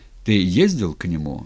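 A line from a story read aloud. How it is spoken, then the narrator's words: Plain. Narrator (Russian): спросил Степан казака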